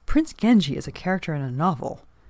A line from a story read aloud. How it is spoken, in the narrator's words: He blurted out